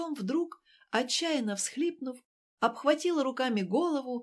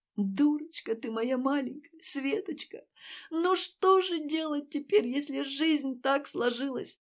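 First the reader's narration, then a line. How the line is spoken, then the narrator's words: Breathy, through frequent sobs. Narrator (Russian): С придыханием, сквозь частое всхлипывание, говорила Ася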